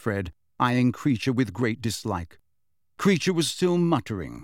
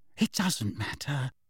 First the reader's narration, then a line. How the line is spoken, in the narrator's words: Hermione whispered